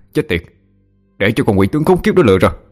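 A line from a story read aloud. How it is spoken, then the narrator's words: Angry loud scolding. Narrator (Vietnamese): cậu tức giận mắng to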